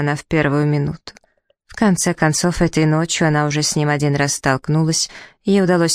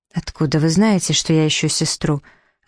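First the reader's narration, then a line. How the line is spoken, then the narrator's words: Polite, calm. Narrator (Russian): старалась говорить светски, спокойно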